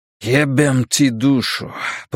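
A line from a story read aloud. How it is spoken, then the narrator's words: Grumbling. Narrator (Russian): проворчал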